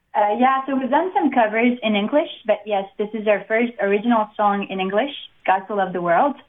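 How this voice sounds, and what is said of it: French-accented English. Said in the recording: “I know both of you have a French accent”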